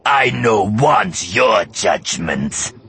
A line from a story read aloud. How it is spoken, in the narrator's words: he snarled